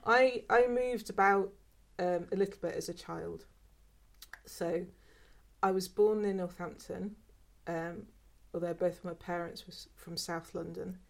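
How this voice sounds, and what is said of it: Unusual mixed British accent. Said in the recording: “I've got a bit of a weird accent, actually. I don't really know where my accent comes from”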